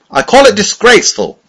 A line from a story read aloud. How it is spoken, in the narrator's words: he said, raising his voice